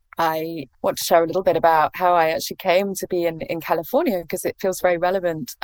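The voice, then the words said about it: English accent. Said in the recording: “as you can probably tell from my accent, I'm English.”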